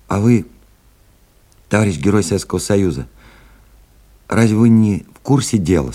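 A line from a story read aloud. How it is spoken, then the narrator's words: Plain. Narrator (Russian): спросил Алик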